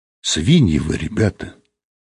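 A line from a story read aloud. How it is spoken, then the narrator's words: Quiet. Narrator (Russian): тихо сказала она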